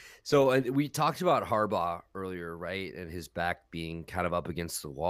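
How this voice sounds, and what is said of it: Usual voice. Nothing is said of it.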